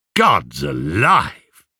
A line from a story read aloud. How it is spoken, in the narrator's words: scoffed Antinous